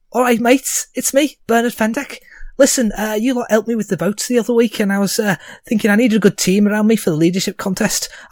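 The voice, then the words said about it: Deliberately bad Scouse accent. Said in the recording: “my horrible Scouse accent.”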